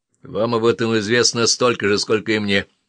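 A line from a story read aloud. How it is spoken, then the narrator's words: Snapped gloomily. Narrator (Russian): мрачно грызнулся Оффли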